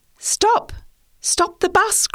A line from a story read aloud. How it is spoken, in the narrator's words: cried the children